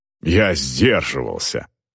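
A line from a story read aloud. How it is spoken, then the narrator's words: Snort. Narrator (Russian): фыркнул Эйнер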